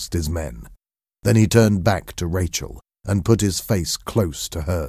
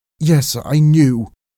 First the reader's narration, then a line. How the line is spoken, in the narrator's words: cried Rachel